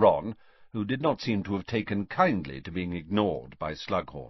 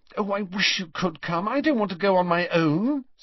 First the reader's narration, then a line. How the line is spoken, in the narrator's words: said Hermione anxiously